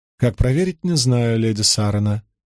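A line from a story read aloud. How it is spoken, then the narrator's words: Calm reply. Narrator (Russian): спокойно отозвалась Лилейн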